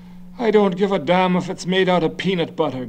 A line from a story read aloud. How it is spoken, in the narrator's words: Garvey said irritably